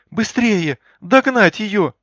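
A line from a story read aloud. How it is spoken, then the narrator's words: Shrill squeal. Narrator (Russian): взвизгнула Галя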